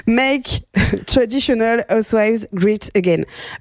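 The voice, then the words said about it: Poor attempt at English accent. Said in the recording (French): “Excusez-moi pour mon accent anglais. ... l'accent anglais qui est nul. ... Le great, il était pas bon.”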